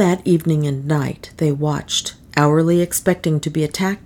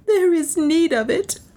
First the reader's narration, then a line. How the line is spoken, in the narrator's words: sobbed